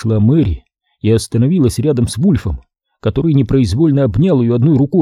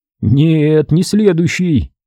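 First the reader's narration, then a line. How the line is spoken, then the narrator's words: Strained forced words. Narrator (Russian): выдавил Ченс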